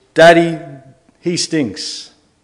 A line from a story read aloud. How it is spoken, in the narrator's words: Jack, the son of this man, yells out loudly